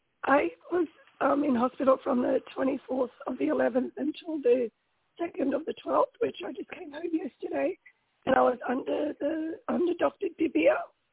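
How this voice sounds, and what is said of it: Unwell, impaired-sounding voice. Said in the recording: “Sorry about my voice.”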